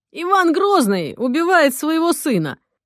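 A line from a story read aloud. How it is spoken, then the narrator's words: Loud joyful. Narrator (Russian): Радостно и громко сообщил он Полине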